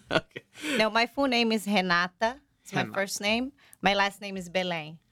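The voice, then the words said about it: Brazilian accent. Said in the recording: “you have a special accent from somewhere ... From Brazil”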